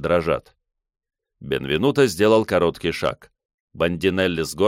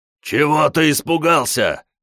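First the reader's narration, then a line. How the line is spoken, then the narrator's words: Hoarse shout. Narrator (Russian): хрипло крикнул Бенвенуто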